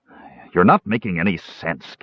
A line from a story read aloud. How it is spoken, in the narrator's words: Caramon snapped viciously